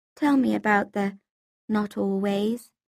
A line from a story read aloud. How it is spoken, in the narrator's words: I said quietly